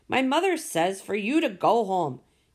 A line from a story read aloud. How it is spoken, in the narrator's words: Maxine stood on her front porch and yelled